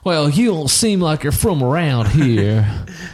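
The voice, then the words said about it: Put-on southern accent. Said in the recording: “Why do they have a southern accent?”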